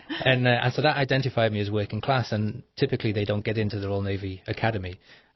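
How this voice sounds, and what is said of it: Mixed Liverpool accent. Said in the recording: “My accent is a Liverpool accent, or it's a mixed accent now.”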